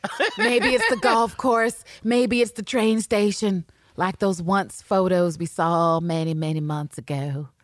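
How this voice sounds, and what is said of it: Put-on unspecified accent. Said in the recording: “Don't ask me where this accent came from.”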